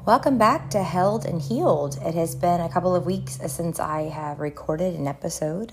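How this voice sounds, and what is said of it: Weary, worn-out voice. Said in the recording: “As you can hear in my voice, I am physically weary and worn”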